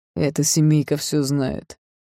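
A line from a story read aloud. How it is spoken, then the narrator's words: Grumble. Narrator (Russian): проворчал Джексон Карри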